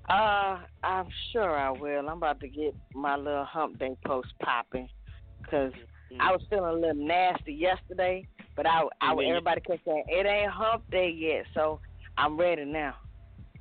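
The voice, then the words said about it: Raspy voice. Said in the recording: “your voice got raspy”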